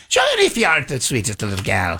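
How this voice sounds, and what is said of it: Put-on Irish accent. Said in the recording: “I do a little Irish accent for you.”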